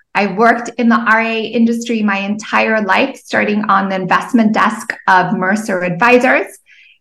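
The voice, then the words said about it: Slight Zimbabwean South African accent. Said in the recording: “If you hear a little bit of an accent, it's because I'm originally from Zimbabwe and I went to school in Cape Town, South Africa.”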